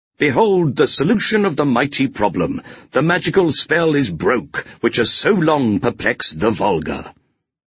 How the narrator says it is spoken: exclaiming triumphantly

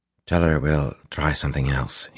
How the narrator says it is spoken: muttered

